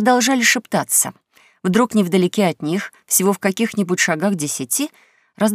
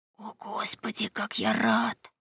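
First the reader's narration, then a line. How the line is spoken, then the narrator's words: Whispered. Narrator (Russian): прошептал Том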